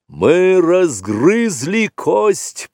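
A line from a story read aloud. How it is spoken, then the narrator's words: Booming. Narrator (Russian): прогремел Пхао, сын Пхаоны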